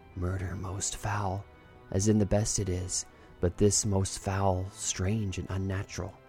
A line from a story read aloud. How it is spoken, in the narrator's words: She whispered